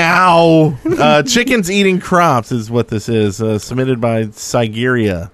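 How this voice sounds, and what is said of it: Usual voice. Nothing is said of it.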